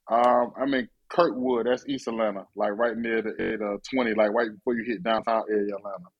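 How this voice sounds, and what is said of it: Sudden Atlanta accent. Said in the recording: “why you got a ATL accent sound like all of a sudden?”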